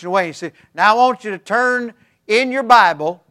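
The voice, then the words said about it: Imitated West Virginia preacher voice. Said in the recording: “I'm doing my best Bill Monroe imitation... He's from West Virginia... Do you understand me when I talk this way?”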